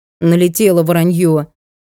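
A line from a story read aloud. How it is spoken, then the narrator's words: Grumbling. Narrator (Russian): ворчала по этому поводу Сашка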